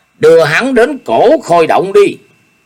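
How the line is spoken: Sharp shout. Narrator (Vietnamese): Ô Hữu Đạo dùng tay áo quát

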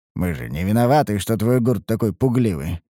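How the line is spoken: Scoffing snort. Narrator (Russian): хмыкнул я

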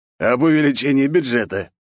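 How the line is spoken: Snorted. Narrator (Russian): хмыкнул Потапов

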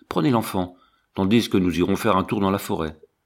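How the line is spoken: Imperious commanding tone. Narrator (French): dit-il d'un ton impérieux

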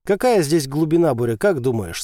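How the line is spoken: Plain. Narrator (Russian): спросил Назар

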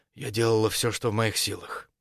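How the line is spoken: Calm reply. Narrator (Russian): Ответила также спокойно

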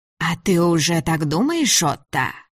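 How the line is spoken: Old woman's insinuating whisper. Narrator (Russian): Голос старухи упал до вкрадчивого шепота

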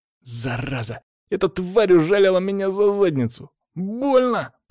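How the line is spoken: Hissed. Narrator (Russian): прошипел Ярослав

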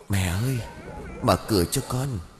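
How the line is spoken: Soft call from outside. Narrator (Vietnamese): tiếng gọi khẽ bên ngoài

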